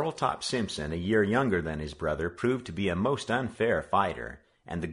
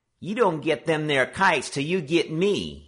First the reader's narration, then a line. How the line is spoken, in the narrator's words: he challenged in a piping little voice